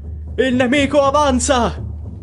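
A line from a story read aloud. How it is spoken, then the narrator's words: Sudden shout. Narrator (Italian): grida ad un tratto qualcuno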